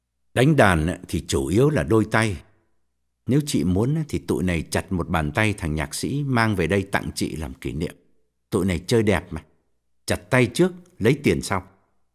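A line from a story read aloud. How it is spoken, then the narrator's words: Cold. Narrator (Vietnamese): Quân lạnh lùng bảo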